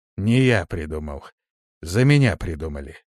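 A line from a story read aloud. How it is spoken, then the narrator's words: Plain. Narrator (Russian): ответил Вейс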